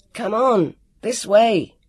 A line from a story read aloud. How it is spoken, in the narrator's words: Jonathan shouted